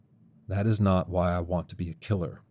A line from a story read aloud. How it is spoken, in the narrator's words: Cal said in a low tone